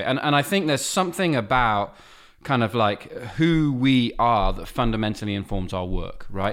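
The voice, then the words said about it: British accent. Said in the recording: “a white man with a British accent operating in North America”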